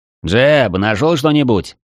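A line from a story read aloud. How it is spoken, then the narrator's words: Shouted over shoulder. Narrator (Russian): Не оборачиваясь, крикнул я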